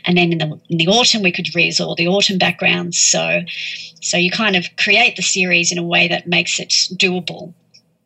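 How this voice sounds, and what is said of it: Speaks with a noticeable accent. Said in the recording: “I absolutely love your accent.”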